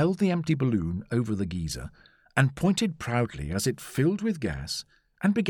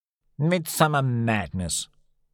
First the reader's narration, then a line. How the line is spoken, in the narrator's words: snorted Summerlee